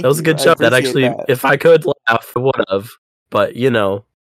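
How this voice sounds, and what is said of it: Voice much deeper than usual. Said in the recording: “my voice is a lot deeper than it usually is”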